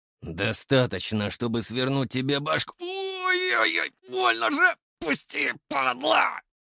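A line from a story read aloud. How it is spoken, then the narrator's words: Howling in pain. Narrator (Russian): Взвыл Илюша, когда я сжал кисть сильнее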